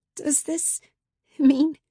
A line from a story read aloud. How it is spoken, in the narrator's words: I stammer